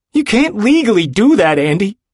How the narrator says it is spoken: he shouts

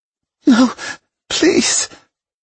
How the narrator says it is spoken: she whimpered, completely at my mercy

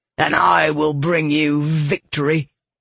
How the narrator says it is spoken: he growled

